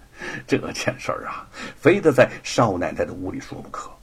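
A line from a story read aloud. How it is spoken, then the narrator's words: Sinister laugh. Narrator (Chinese): 罗万金阴笑着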